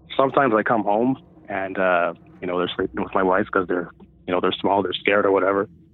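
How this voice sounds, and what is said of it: Nervous, shaky voice. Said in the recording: “I'm actually kind of freaking out talking about it right now. You can probably hear it in my voice. I'm super nervous ... I can't even talk”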